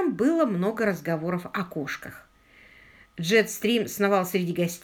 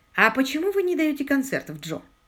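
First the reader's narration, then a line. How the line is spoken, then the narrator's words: Plain. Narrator (Russian): спросила Полли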